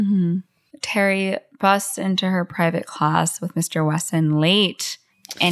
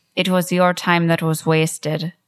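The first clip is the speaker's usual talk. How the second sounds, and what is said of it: Put-on Irish accent. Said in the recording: “I keep going to an Irish accent.”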